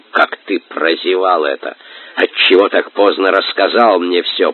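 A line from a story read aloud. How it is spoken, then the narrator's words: Hissed. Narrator (Russian): прошипел Батухан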